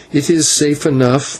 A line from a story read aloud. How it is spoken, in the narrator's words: Maya answered with a bitter laugh